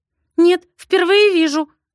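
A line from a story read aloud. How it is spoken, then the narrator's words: Trembling whisper. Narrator (Russian): шепчет Илоночка дрожащим голосом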